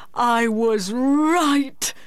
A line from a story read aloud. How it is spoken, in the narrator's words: he cried